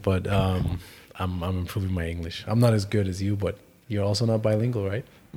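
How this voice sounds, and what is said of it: Non-native English accent. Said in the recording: “You can tell by my accent”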